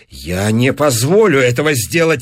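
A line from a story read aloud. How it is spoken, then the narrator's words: Exclaimed. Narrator (Russian): воскликнул Кэмпбелл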